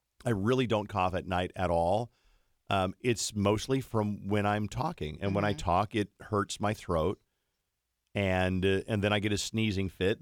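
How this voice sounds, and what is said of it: Hoarse, strained voice. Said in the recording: “that's why I sound extra hoarse today”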